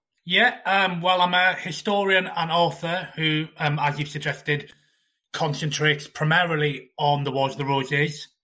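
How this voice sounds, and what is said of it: Welsh accent. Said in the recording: “As my accent, as you, many of you will be able to tell, I am Welsh myself.”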